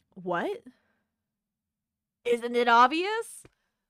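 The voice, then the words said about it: Old man character voice. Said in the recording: “I love your old man voice.”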